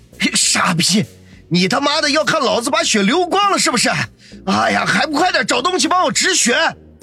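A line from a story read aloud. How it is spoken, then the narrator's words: Loud furious cursing. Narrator (Chinese): 他正好找到了宣泄怒火的借口，大声骂道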